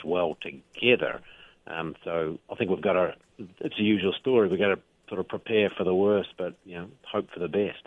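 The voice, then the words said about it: New Zealand accent. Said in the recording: “your accent gives you away a little bit. You're familiar, because it is your homeland, with what New Zealand has done”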